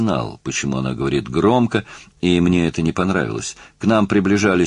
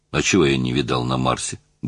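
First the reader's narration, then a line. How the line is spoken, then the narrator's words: Grumbled mutter. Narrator (Russian): буркнул я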